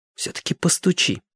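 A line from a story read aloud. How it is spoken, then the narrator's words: Whisper. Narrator (Russian): шепотом сказала она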